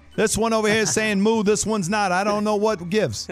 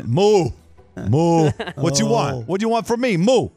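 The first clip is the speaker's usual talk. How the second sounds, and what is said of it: Cow voice with thick New York accent. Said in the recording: “they have such a thick accent.”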